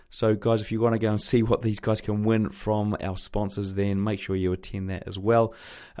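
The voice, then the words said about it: Croaky, hoarse voice. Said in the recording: “sorry if my voice is a little bit croaky for this intro ... I think I picked up a throat infection”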